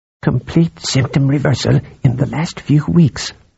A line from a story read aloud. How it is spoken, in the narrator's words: Kalaratan said in a low voice